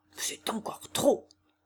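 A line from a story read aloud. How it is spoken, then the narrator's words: Maestro murmuring. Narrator (French): murmura le maestro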